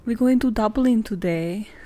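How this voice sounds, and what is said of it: Failed Irish accent, sounds Scottish. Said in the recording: “an attempt for an Irish accent that failed ... that kind of sounded more Scottish than Irish”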